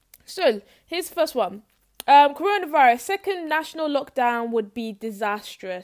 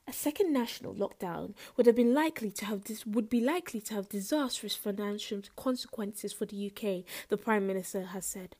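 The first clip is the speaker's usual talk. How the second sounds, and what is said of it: Smooth radio presenter voice. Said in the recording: “in my smooth radio voice. You know, let's do it in a smooth radio voice.”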